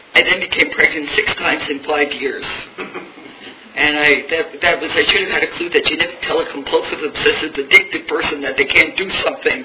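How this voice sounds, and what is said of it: New York accent. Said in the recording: “in New York, in case you haven't figured out the accent.”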